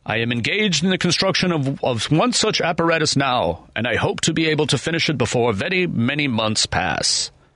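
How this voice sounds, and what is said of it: Thomas Edison impression. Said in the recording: “my Thomas Edison impression”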